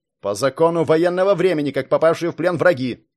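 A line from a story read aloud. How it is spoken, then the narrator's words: Angry growl. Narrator (Russian): зло прорычал Кирилл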